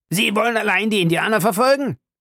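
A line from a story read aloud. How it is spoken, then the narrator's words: Shout. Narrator (German): schrie Fix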